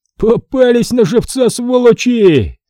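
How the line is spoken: Full-throated yelling. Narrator (Russian): орал на всю глотку Фома

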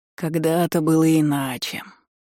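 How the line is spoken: Dreamy drawl. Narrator (Russian): мечтательно протянул дракон

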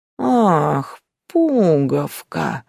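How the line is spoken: Ominous drawl. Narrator (Russian): зловеще протянул Яга

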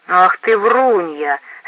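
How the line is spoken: Loud laughter. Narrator (Russian): старший брат захохотал

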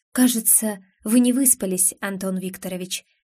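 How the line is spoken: Tender, smiling. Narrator (Russian): нежно улыбаюсь

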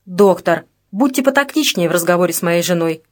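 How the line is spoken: Angry remark. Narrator (Russian): сердито заметил Олег Кличев

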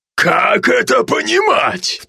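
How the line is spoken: Roaring. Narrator (Russian): проревел папа

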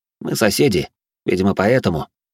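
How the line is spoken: Calm. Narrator (Russian): спокойно произнес я

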